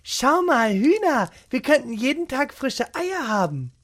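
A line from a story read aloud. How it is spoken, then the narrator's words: Excited call. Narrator (German): rief Gesine begeistert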